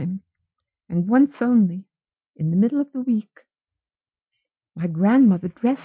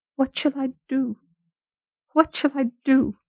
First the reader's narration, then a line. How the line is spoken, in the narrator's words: she cried